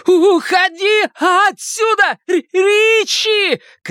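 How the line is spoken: Shouted. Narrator (Russian): крикнул Билл

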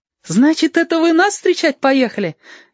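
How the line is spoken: Cheerful surprise. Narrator (Russian): весело удивился Женька

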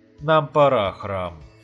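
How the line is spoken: Resolute sigh. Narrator (Russian): решительно вздохнул

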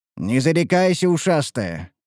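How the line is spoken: Snorting smirk. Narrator (Russian): хмыкнул я

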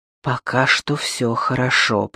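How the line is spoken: Whisper. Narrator (Russian): прошептал он

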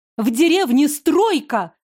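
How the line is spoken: Shouted. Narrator (Russian): крикнула Иллиана

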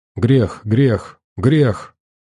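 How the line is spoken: Crowd muttering. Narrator (Russian): бормотали греховцы

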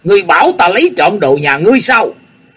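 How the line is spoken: Sudden shout. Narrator (Vietnamese): gã la lên

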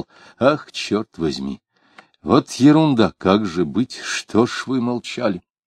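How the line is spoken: Muttering. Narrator (Russian): Он бормотал

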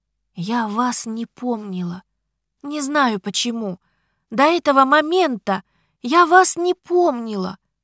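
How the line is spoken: Desperate exclamation. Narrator (Russian): воскликнула отчаянно

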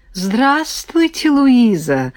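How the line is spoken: Joyful smiling greeting. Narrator (Russian): радостно улыбнулась

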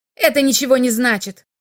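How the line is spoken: Angry curt remark. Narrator (Russian): сердито бросил Экстер

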